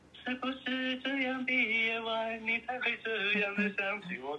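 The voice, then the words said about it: Singing very softly. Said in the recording (Chinese): “小声小声的唱 ... 我就这样唱的很很小声的”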